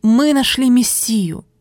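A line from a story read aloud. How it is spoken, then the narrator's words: Exclaiming. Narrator (Russian): Он воскликнул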